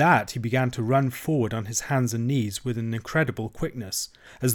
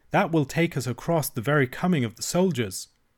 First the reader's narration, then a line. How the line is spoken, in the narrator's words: cried